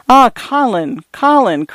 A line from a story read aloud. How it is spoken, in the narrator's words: cried Nellie Boland